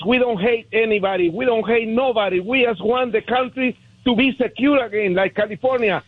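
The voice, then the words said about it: Heavy foreign accent. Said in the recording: “I have a beautiful heavy accent like Arnold Schwarzenegger”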